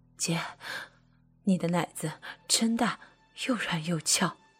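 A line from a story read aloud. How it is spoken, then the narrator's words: Panting, halting speech. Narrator (Chinese): 妻子一边喘气，一边断断续续的说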